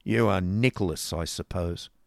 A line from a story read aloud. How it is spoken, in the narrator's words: growled Ralph with an ill-favoured frown